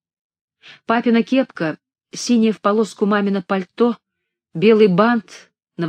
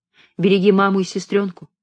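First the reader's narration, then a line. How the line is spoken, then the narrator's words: Plain, father. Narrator (Russian): сказал отец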